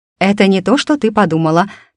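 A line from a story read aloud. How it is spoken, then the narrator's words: Quick exclamation. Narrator (Russian): тут же воскликнула я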